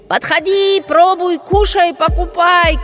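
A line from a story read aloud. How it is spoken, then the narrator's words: Shouted. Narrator (Russian): кричали они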